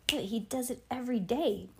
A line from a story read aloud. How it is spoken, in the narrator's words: Bean whispered